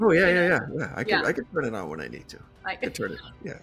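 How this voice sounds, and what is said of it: Usual voice. Nothing is said of it.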